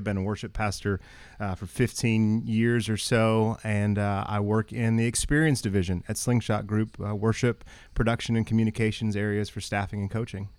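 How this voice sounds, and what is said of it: Texas twang accent. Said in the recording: “there's some words, that like Texas just drips out of your mouth... you've got that Texas twang in you”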